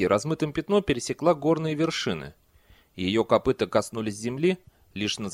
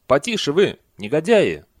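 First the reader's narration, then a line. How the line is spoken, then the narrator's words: Monks yelling. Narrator (Russian): монахи орали на них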